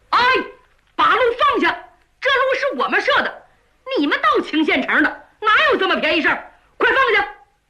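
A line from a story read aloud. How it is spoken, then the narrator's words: Loud shout. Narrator (Chinese): 两个人高喊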